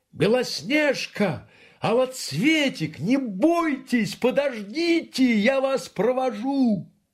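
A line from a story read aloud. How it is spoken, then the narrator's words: Bear calling out. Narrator (Russian): медведь крикнул им вслед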